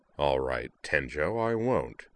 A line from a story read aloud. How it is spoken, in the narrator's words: said, in a parody of his old chilly sneer